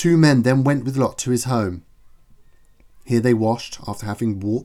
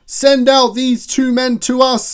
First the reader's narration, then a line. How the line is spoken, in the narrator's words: shouted